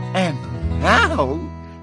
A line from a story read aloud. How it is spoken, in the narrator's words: giggled Gertrude